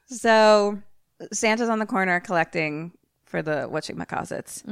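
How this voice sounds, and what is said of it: Usual voice. Nothing is said of it.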